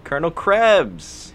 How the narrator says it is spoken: he called out to him

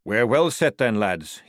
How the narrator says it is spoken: he chuckled

